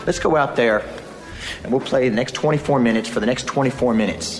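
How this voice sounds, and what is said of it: Texas accent. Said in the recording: “I didn't know he had this accent. ... why does ... sound like he's from Texas?”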